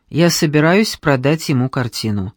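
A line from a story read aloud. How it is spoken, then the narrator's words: Calm. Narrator (Russian): спокойно ответил Алекс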